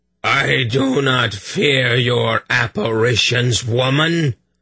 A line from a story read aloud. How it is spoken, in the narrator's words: the towering hermit roared